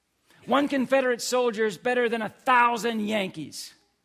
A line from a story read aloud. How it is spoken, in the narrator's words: The same Southern voice shouted